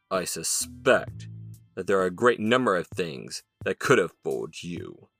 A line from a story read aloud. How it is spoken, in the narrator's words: Jefferson growled